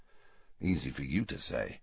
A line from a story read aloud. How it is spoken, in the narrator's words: muttered Harry